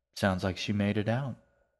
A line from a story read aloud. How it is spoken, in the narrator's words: his father said